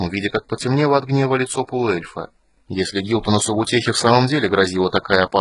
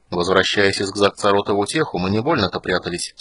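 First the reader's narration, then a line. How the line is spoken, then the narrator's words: Calm. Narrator (Russian): спокойно ответил Стурм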